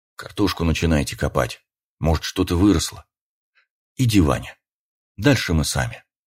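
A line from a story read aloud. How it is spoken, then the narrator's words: Father's whisper. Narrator (Russian): старший Рогов прошептал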